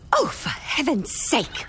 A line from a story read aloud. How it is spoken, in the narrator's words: She snapped